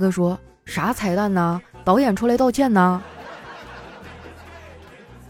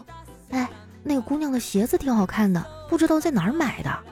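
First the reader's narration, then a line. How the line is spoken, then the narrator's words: Quiet. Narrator (Chinese): 她小声的跟那大哥说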